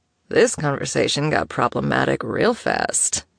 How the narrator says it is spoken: Killian mumbled against her temple

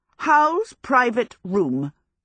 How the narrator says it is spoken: Sophie said firmly

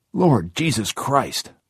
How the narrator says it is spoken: Huddy cried

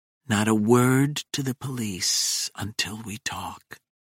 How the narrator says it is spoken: whispers in my ear

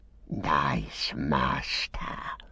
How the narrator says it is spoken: he whispered

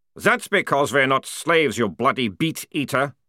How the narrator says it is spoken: growled one of the troopers

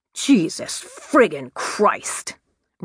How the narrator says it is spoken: roared Tony

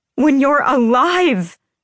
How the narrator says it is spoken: I shouted

